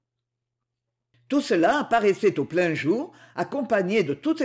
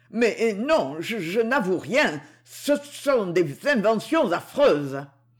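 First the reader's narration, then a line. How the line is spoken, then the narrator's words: Stammering heavy man. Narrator (French): balbutia le gros homme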